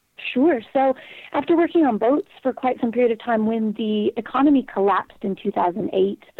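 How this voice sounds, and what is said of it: Mixed, slightly English-sounding accent. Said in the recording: “Do you have an English accent? ... I have a bit of a Mongo accent now, but mostly it's because I spend 98% of my time with a born and bred Englishman.”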